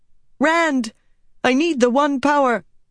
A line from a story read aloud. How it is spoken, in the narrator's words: Nynaeve cried